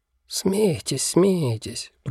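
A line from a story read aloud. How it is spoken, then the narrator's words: Muttered. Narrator (Russian): пробормотал он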